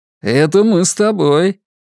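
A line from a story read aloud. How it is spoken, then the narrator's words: Cheerful reply. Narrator (Russian): весело отозвался Вадим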